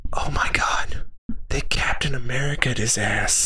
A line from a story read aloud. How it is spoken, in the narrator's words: I was the one that whispered